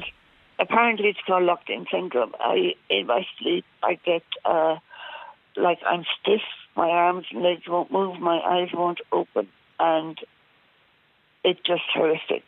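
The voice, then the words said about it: Congested, hoarse head-cold voice. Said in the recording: “Please excuse my voice. I have a dreadful head cold.”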